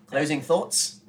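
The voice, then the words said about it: Put-on Australian accent, question-like intonation. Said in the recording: “I'll say it in Australian accent, so it always sounds like a question.”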